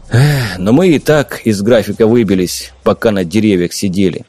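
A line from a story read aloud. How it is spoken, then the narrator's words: Sighing. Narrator (Russian): вздохнул и добавил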